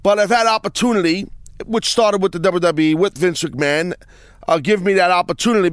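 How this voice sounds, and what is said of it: New York accent. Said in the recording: “my New York accent, can sometimes butcher the English language”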